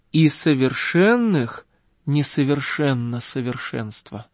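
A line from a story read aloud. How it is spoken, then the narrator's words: Plain. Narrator (Russian): говорит лествичник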